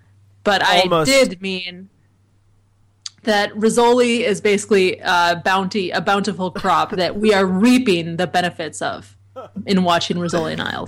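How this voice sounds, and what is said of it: Rural hick American accent. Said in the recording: “your hayseed accent ... my horrible hayseed hick accent”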